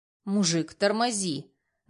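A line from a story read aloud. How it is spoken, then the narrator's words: Rough. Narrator (Russian): грубо произносит Денис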